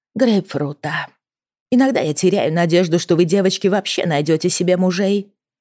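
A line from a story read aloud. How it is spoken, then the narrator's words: Mutter. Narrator (Russian): пробормотала мисс Ха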